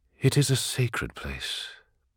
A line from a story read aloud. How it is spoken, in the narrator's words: breathed Lorgar